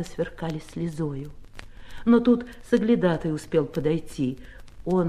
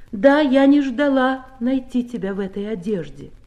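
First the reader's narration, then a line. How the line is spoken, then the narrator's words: Loud. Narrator (Russian): Я громко сказала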